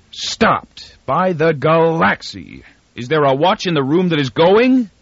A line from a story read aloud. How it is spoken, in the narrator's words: His voice was a roar